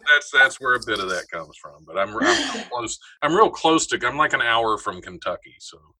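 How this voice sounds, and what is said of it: Slight Southern-tinged American accent. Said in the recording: “you have a little accent”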